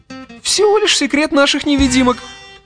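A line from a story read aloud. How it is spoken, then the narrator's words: Triumphant giggle. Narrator (Russian): торжествующе хихикнув, ответил Арнольд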